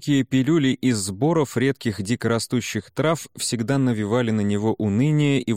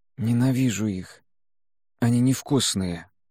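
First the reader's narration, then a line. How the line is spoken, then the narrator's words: Hoarse weak whisper. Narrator (Russian): хрипло шепнул Сяо Вэнь, еле разлепив сухие губы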